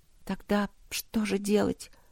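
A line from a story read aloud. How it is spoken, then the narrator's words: Quiet question. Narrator (Russian): тихо спросила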